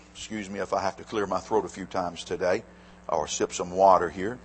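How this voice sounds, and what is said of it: Slightly hoarse, throaty voice. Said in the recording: “I've got a little frog in my throat.”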